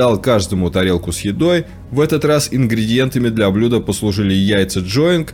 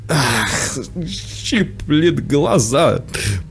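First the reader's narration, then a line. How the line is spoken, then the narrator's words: Sobbing while murmuring. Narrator (Russian): Приговаривая и рыдая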